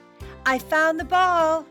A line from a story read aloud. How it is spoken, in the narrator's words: Suddenly, Liz shouted